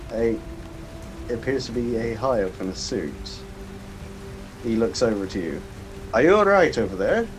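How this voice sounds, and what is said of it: Inconsistent put-on accent. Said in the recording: “My accent is all over the place”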